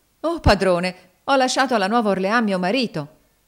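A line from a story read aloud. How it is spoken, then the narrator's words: Trembling frightened exclamation. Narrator (Italian): La donna tremò tutta e indietreggiando di alcuni passi esclamò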